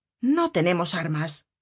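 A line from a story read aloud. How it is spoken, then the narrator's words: Excited worker exclaiming. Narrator (Spanish): La exaltación era tal que un día, en medio de la taberna, exclamó un obrero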